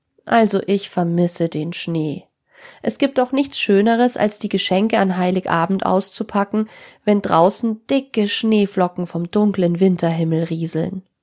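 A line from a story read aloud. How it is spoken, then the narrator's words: Sad. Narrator (German): meinte traurig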